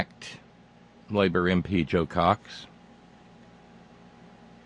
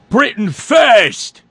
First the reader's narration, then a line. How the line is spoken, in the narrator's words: A man by the name of Tommy Mayer, aged 52, screaming